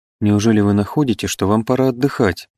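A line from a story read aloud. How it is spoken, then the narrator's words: Timid question. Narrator (Russian): спросила она робко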